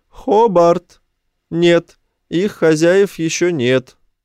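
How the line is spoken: Loud call. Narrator (Russian): Райт громко позвал

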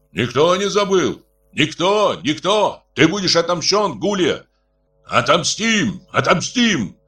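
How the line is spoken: Crowd shouting. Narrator (Russian): кричали тушины

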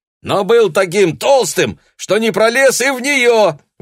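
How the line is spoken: Yelling, finishing a joke. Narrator (Russian): вопит Арас, словно доканчивая анекдот

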